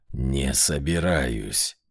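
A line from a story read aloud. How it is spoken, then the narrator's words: Growled. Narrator (Russian): прорычал он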